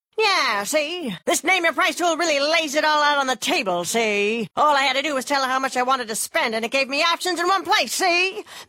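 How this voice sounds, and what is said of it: 1930s gangster voice impression. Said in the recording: “my impression of a 1930s gangster”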